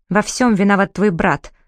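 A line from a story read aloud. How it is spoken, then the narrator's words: Dry. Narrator (Russian): сухо ответил Дарик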